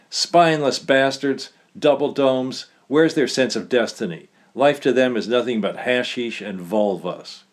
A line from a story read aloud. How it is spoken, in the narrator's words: Wildly ranted